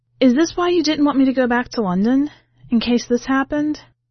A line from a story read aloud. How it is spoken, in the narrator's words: Callie sighed